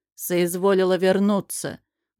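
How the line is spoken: Rude greeting. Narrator (Russian): грубо приветствует муж

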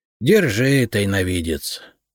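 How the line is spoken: Sighing. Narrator (Russian): вздохнул Репей

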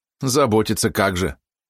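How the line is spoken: Angry snort. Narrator (Russian): она зло фыркнула

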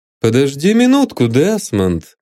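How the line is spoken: Cheerful. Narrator (Russian): весело сказал он

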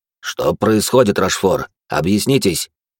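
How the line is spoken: Displeased voice. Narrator (Russian): недовольным голосом произнес Людовик

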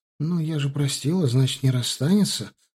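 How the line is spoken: Timid suggestion. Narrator (Russian): робко предположила она

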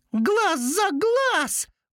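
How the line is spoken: Exclaimed. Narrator (Russian): воскликнул Белый

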